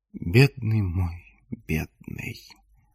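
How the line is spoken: Whisper. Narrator (Russian): прошептала Лоран

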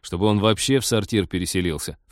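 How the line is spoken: Snorting. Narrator (Russian): фыркнул Теодор

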